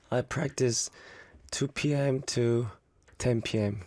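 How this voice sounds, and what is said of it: Hoarse, strained voice. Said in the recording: “my voice is kind of not good today ... I lost my voice ... Your voice is bad”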